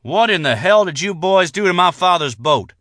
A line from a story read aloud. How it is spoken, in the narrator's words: he said in a loud voice